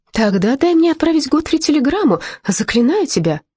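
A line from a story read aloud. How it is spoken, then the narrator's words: Pleading. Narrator (Russian): взмолилась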